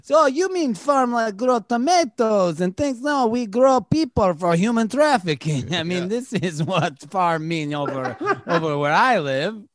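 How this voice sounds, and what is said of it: Comic put-on Borat accent. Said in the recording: “I'm just going to do a Borat accent”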